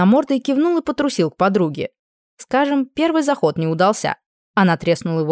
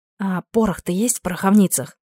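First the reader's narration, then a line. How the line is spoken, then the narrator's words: Whisper. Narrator (Russian): Прошептала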